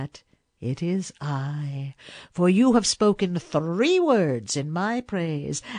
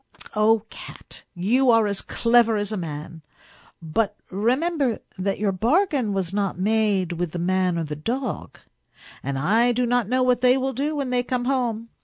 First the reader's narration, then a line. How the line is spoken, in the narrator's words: Then the woman laughed, and said